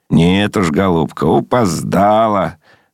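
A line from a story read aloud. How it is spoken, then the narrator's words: Laughing. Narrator (Russian): смеясь сказал служитель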